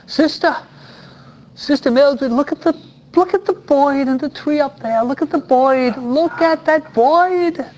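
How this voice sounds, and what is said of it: New York accent. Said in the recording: “this is the way New Yorkers speak. New Yorkers have a different accent than the Californians.”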